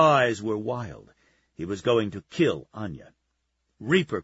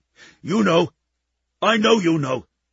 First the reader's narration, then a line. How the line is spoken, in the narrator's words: Jif blurted